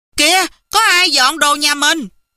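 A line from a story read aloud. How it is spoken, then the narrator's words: Sudden shout. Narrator (Vietnamese): Phước bỗng la lên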